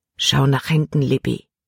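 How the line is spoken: Quiet. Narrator (German): sagte er leise

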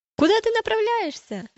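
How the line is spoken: Group shouting. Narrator (Russian): закричали они

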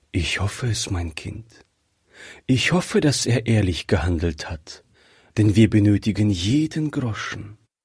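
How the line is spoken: Mother speaking with sigh. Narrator (German): sagte die Mutter seufzend

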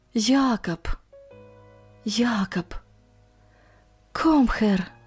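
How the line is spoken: Barely audible whisper. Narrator (Russian): Иван чуть слышно шепча по-немецки

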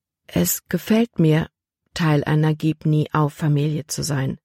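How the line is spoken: Gentle. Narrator (German): sagte sie sanft

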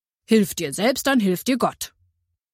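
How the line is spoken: Firm voice. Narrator (German): sagte mit fester Stimme

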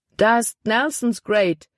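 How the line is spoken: Exclaimed. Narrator (German): rief er aus

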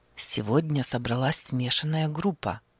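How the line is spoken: Quiet, avoiding waking. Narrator (Russian): заговорил он тихо, чтобы не разбудить солдата

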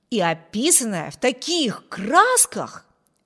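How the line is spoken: Exclaiming. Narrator (Russian): воскликнул Виберт

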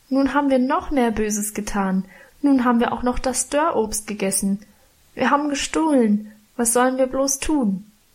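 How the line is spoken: Wailing lament. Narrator (German): jammerte

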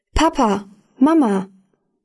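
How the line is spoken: Called out. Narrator (German): rief

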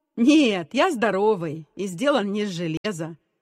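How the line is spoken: Laughing reply. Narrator (Russian): рассмеявшись, ответил Гена

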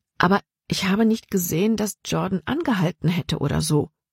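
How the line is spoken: Plain. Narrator (German): sagte Libby

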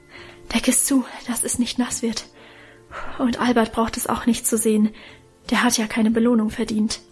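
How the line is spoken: Breathless. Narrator (German): sagte er atemlos

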